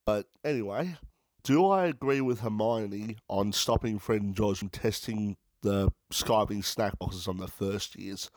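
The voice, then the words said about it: Sick-sounding voice. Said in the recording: “excuse my voice, as you guys know, I'm sick.”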